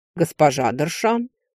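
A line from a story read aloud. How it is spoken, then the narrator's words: Polite deep low male voice. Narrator (Russian): с вежливой улыбкой проговорил король, глубоким низким голосом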